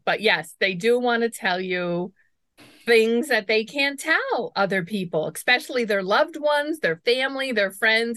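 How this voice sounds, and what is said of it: New York accent. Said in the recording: “I detect an accent. ... I'm a New Yorker.”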